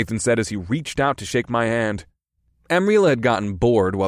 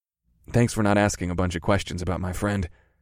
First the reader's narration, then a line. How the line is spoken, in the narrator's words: I whispered